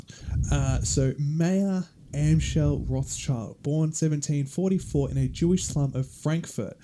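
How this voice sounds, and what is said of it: Australian accent. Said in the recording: “I'm doing my bastardized Australian accent version of all of these”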